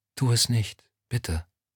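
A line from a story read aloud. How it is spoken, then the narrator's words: Repeated in a whisper. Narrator (German): Lorna legte ihm ihre Hand auf die Schulter und wiederholte flüsternd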